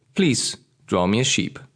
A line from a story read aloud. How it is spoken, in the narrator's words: he repeated softly and gravely